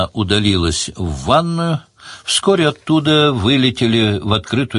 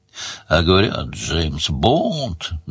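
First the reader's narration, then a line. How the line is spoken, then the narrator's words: Grumbling. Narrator (Russian): проворчал Сварог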